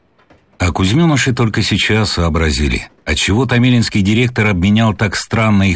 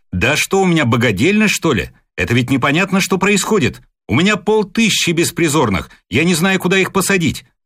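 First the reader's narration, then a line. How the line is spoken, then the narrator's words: Heated shouting. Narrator (Russian): А один распылил, закричал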